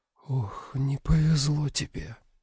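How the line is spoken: Whispered. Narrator (Russian): Она прошептала

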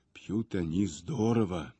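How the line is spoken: Almost a whisper. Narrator (Russian): почти шепотом сказал мне Аристарх Александрович

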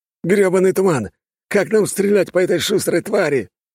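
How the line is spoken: Sailor shouting. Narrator (Russian): кричал один из моряков

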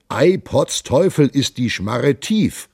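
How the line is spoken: Astonished exclamation. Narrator (German): rief er voll Verwundernis

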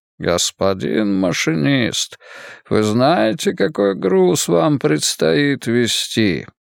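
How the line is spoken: Sing-song southern voice. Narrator (Russian): сказал певучим голосом южанина

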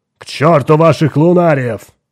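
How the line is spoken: Barked. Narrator (Russian): рявкнул Кинг

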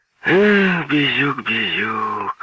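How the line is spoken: Sigh. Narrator (Russian): вздохнул Владислав Евгеньевич Кирич

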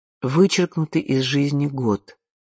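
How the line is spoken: Plain. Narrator (Russian): сказал тогда Антуан

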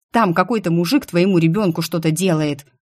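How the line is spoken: Angry blurt. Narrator (Russian): зло выпалила я

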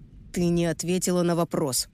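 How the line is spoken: Through gritted teeth. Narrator (Russian): процедил новенький

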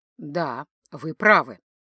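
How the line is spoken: Mumbled. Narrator (Russian): пробормотал Ингвар

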